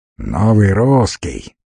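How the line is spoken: Angry question. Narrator (Russian): зло спросил Попов

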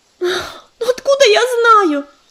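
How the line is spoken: Near tears. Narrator (Russian): Едва не разрыдалась Листвичка

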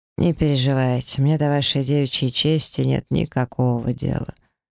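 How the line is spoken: Calm, dismissive. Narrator (Russian): спокойно отмахнулся Шашхар

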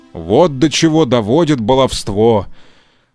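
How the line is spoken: Grumbling. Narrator (Russian): проворчал папа Карло

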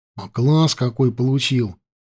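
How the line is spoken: Plain. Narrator (Russian): спросил Петька

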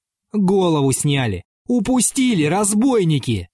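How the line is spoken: Shouting. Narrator (Russian): кричал он

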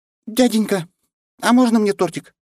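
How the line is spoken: Small child's squeak. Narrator (Russian): пискнула мелкая

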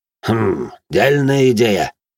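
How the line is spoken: Thoughtful grunt. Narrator (Russian): хмыкнул глава гильдии строителей

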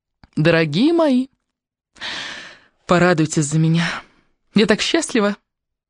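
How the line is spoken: Laughing, happy. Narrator (Russian): Она рассмеялась

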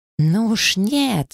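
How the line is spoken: Yelling. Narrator (Russian): завопила Лавинья

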